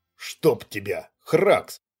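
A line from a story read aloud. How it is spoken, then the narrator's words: Hissing in pain. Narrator (Russian): Глеб зашипел от боли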